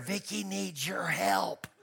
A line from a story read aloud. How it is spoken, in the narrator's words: he whispers in my ear